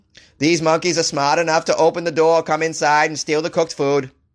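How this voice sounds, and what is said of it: Imitates another person's accent. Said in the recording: “I'm gonna keep the Kennedy accent”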